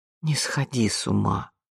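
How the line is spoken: Tender, affectionate. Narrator (Russian): ласково проговорила Вианна

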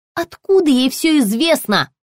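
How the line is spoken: Yelling. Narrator (Russian): заорала Соня

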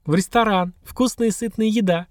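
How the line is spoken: Chuckling. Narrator (Russian): хохотнула Анька

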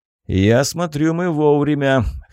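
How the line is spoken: Amused snort. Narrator (Russian): хмыкнул он

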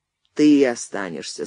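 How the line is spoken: Tired. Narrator (Russian): сказал Андрей устало

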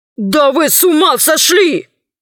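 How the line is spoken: Shouting. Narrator (Russian): закричал Мощин

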